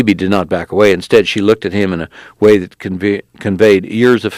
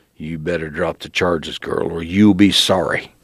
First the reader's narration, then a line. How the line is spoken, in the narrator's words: growled